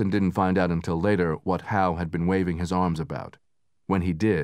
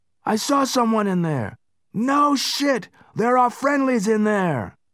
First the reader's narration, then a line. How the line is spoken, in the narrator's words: He shouted back